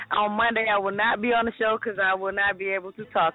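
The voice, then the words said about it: Hoarse, nearly lost voice. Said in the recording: “I don't have no voice ... The damn bucket did my voice in. I have no more voice.”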